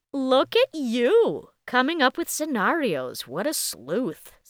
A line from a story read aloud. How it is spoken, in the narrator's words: Celia laughed